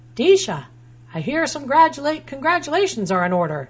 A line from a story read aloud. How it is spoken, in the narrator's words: he saw me and yelled